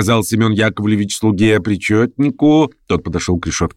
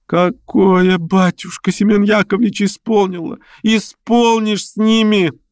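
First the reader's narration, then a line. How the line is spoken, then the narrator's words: Wailing yell. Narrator (Russian): завопила вдова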